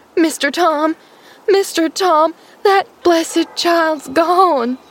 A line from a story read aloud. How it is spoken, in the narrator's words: she wailed